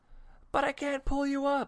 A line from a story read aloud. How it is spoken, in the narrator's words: the man cried